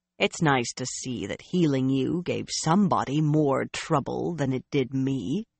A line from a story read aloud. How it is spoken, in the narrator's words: Nynaeve grumbled